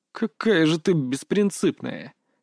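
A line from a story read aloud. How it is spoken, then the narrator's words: Quiet laughter. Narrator (Russian): тихо рассмеялся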